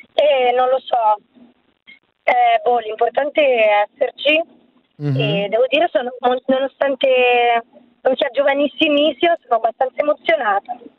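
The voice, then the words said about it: Hoarse, nearly lost voice. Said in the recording (Italian): “sono senza voce”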